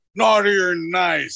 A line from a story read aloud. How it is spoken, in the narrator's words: suddenly stands up and roars